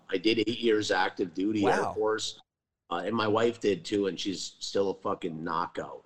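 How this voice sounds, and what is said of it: Upper Peninsula Michigan accent. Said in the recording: “I came from the Upper Peninsula, Michigan ... that's where my accent comes from.”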